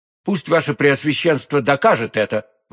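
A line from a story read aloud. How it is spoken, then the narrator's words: Sincere, sharp exclamation. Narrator (Russian): воскликнул де Тревиль с искренностью чисто гасконской и резкостью чисто военной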